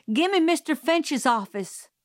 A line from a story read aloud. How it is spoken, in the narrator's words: shouted